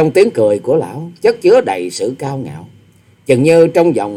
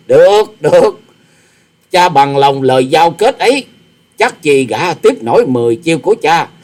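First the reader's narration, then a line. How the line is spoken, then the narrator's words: Proud loud laugh. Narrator (Vietnamese): Tư Đồ Hạnh ngạo nghễ cười to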